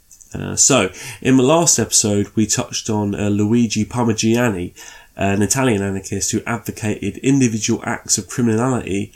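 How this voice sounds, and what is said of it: Congested voice with a cold. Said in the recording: “I've got a little bit of a cold, so sorry if I do some sniffing while I'm speaking.”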